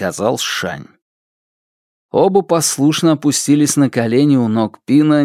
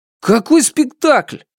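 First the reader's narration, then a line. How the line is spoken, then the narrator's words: Offended exclamation. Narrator (Russian): обиженно воскликнул Шунь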